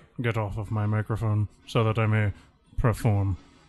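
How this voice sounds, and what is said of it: Cartoonish Alan Rickman impression. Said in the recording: “Cheap, cartoonish impersonation. I mean, actual Alan Rickman.”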